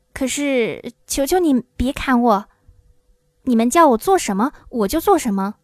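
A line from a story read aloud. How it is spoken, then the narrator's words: Trembling, frightened man. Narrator (Chinese): 小个子男人声音发抖地说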